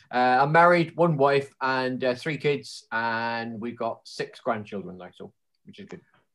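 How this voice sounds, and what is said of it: Strong Plymouth or Cornish English accent. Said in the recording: “in case you're wondering what my accent is ... I evidently do, and it's just quite a strong Plymouthian or Cornish accent”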